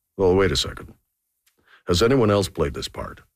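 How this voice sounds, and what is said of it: Good Leslie Nielsen impression. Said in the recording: “That was a good Leslie Nielsen impression too, by the way.”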